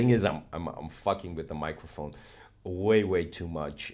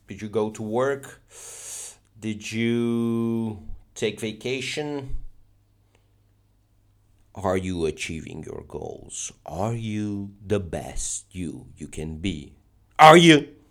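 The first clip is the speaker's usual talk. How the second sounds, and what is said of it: Shouting. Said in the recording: “I'll stop shouting.”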